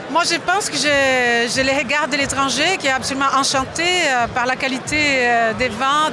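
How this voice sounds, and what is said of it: Italian-Brazilian accent in French. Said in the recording (French): “D'où vient votre accent ... italo-brésilienne”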